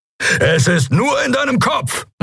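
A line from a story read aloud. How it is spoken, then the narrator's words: Called out. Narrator (German): rief er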